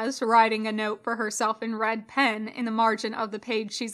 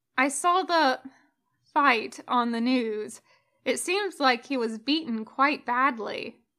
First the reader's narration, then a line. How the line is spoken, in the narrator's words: her mother says